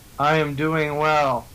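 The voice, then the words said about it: Flat, robotic-sounding delivery. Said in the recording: “You sound so robotic”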